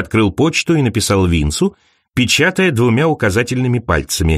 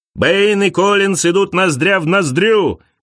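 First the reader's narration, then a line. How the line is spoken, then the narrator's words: Commentator shouting. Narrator (Russian): кричал комментатор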